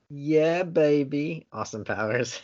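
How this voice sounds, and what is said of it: Awful Austin Powers impersonation. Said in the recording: “That was an awful impersonation.”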